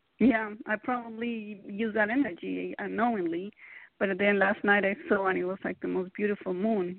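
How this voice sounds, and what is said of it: Latin-sounding accent. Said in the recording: “you sound like a friend of mine. She's from Lebanon ... So where's your accent from? ... I am Latin.”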